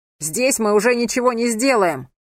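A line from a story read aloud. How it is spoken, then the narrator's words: Shouting. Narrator (Russian): закричал Анхель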